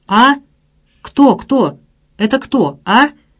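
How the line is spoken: Crying, trembling anguished cry. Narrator (Russian): Петя заплакал, крикнул, дрожа в страшной тоске

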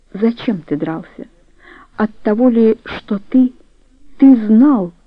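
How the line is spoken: Despairing exclamation. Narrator (Russian): Дора воскликнула с отчаянием в голосе

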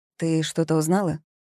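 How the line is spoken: Plain. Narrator (Russian): спросила

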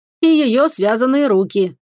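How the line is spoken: Grumbling mutter. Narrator (Russian): пробурчал Октавий

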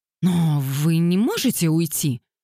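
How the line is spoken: Exclaiming. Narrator (Russian): воскликнула Кассандра Лейтон

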